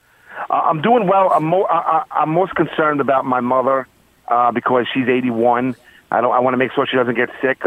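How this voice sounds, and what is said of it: Queens New York accent. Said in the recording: “I love the Queens accent.”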